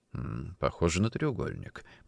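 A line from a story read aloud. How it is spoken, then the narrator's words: Muttered. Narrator (Russian): пробормотал он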